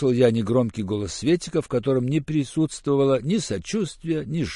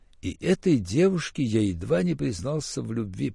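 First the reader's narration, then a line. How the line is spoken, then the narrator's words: Hoarse wheeze. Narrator (Russian): прохрипел я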